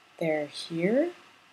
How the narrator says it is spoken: His voice was barely audible

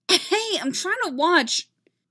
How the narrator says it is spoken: yelps

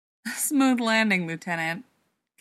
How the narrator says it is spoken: Cadman laughed

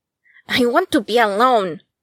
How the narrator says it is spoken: Akira snapped, finally raising his voice above a murmur

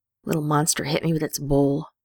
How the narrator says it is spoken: the young keeper growls

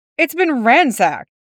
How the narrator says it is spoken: the detective exclaimed

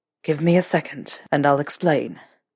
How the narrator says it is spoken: Draco panted

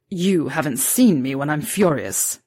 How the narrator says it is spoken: Severus snarled

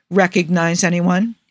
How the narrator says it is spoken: he asks Joe

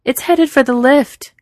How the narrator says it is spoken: Capable yells

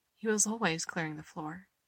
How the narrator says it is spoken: says softly

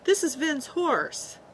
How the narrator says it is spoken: he yelped

